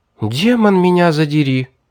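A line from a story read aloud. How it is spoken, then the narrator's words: Delighted girl's exclamation. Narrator (Russian): восторженно воскликнула девушка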